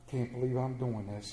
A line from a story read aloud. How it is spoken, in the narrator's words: he muttered